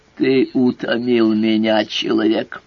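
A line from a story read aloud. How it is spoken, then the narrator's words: Strained inarticulate growl. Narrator (Russian): С трудом, нечленораздельно прорычало оно, разинув слюнявую пасть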